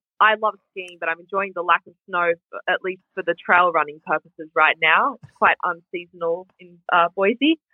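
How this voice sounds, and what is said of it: Australian accent. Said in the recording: “you're from Sydney ... I love an Australian accent.”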